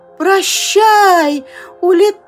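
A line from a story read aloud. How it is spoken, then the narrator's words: Shouted. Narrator (Russian): закричал он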